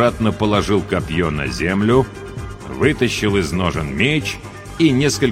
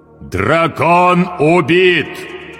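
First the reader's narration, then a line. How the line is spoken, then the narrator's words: Very loud, iron voice. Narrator (Russian): провозгласил он железным голосом так громко, что услышали все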